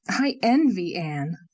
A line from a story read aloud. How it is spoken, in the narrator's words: said Leslie suddenly and fiercely